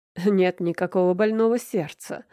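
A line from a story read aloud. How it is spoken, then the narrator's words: Scoffing snort. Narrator (Russian): хмыкнула Люся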